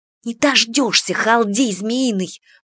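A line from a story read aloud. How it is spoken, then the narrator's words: Whispered. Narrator (Russian): прошептала Кика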